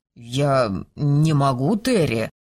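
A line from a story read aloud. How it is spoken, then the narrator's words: Mumbling. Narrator (Russian): промямлил герцог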